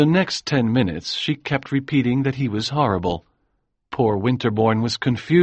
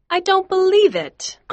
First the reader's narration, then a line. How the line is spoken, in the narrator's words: cried Miss Daisy Miller